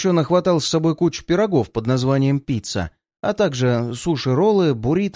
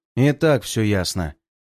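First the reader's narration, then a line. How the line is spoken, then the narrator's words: Displeased, curt. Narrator (Russian): недовольным голосом бросает Ратвер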